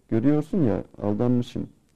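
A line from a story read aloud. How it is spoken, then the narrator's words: Plain. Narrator (Turkish): dedi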